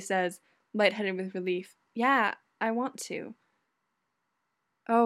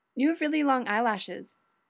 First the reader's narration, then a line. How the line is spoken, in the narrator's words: Judy blurts out